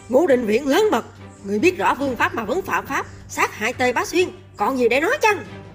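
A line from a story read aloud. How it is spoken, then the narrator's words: Sudden angry shout. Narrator (Vietnamese): Lục Thanh Chính giận dữ, chợt quát lên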